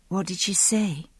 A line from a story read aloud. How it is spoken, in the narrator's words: I asked quietly